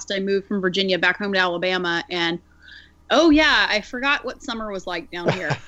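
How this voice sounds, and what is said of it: Southern American accent. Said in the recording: “I may be a little bit more southern sounding than I was this time 12 months ago, because the accent came right back.”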